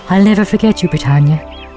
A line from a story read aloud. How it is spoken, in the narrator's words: she whispered